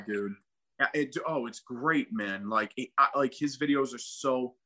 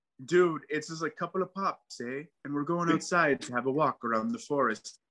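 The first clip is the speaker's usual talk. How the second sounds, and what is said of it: Put-on Canadian accent. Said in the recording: “It's the Canadian accent”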